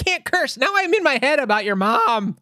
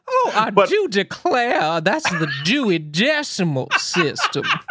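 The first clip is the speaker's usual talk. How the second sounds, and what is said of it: Put-on southern drawl. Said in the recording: “does she have a southern drawl? ... My Keith's mom impression feels wrong ... has a big southern drawl ... my southern mother”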